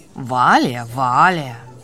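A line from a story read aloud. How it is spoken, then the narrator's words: Grumbling. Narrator (Russian): проворчала Сумра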